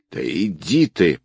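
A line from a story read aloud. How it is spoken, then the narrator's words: Hiss. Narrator (Russian): прошипел тот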